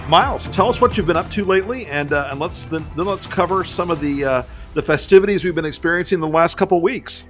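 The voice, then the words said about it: Smooth radio voice. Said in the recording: “I think you've got the best radio voice. You really should read bedtime stories for people.”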